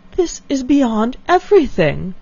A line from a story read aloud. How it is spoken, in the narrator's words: exclaimed Elinor